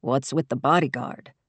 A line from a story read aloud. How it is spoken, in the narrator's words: In a lower voice, he said